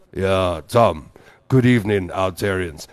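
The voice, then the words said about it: Imitates a very deep voice. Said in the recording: “I don't know if I can do Rudy's voice, because he's got a very deep voice.”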